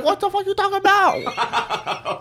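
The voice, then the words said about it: Put-on Asian accent. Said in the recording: “I'm not profound on my accent”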